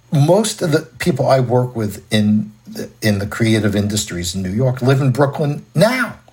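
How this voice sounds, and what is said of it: New York accent. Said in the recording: “New York City, which is my native city, as you can tell from my accent”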